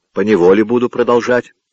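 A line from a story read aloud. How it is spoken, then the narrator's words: Rude reply. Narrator (Russian): отвечал он грубо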